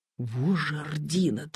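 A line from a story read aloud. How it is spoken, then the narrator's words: Admiring whisper. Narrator (Russian): восхищенно шепнул Коля Калинин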